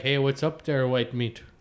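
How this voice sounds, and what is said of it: Put-on Manitoba accent, slightly Irish. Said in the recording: “I'm doing the accent based on, it's a Manitoba accent ... Kind of sounds slightly Irish ... It sounds slightly Irish.”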